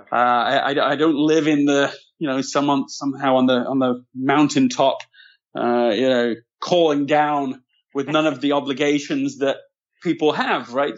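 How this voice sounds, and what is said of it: London English accent. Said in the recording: “you're from London, which would account for the accent”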